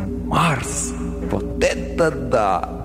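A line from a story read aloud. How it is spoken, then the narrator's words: Inner groan. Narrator (Russian): Мысленно я застонал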